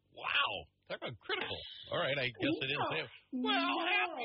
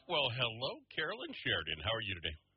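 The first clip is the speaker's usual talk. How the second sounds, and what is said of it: Matter-of-fact radio announcer voice. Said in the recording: “That sounded very, I don't know, matter of fact there. ... your total radio voice”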